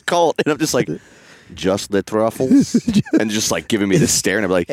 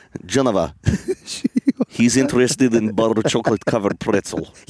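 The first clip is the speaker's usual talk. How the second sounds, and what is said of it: Put-on Russian accent. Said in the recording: “Your Russian accent is, it's so good.”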